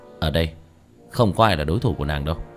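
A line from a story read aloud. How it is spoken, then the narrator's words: Faint sneering laugh. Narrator (Vietnamese): Tiểu Thất cười nhạt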